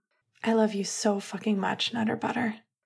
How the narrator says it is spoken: Finn whispered

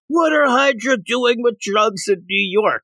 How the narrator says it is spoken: starts yelling

